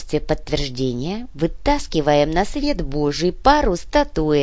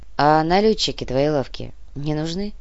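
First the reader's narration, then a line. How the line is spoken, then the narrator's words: Sighing. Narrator (Russian): Томба вздохнул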